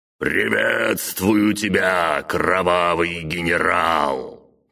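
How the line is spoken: Magically amplified booming voice. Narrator (Russian): Прогремел усиленный магией голос

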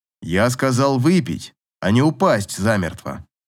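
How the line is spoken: Stern. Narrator (Russian): строго сказал Аверин

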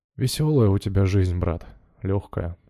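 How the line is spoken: Sighing. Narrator (Russian): вздохнул Тихон Павлович

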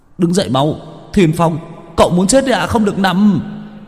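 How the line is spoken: Urgent shout. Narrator (Vietnamese): Chiến biết la lên

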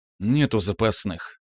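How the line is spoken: Grumbling. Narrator (Russian): наконец буркнул

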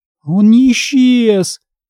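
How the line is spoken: Moaning. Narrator (Russian): простонала я

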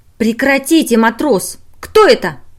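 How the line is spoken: Sharp voice. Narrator (Russian): резко сказала она

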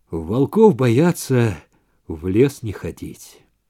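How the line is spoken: Weary repetition. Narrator (Russian): Баннерман лишь устало передернул плечами и повторил

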